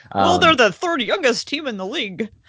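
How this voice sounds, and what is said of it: Imitates a local sports media voice. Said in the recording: “That was my Denver media impression.”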